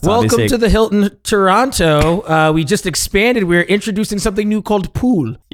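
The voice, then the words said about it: Put-on Canadian accent. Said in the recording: “Is that your Canadian accent, by the way?”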